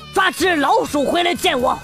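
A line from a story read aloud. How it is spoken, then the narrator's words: Growling, threatening dog. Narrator (Chinese): 一只狗呲牙咧嘴的对猫啊在那吼叫，威胁着说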